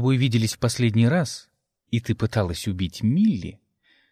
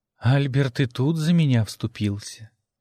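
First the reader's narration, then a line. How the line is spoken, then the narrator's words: Sigh. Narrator (Russian): вздохнула Мия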